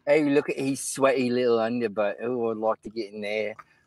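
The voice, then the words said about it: Put-on English accent. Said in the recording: “how do you do an English accent?”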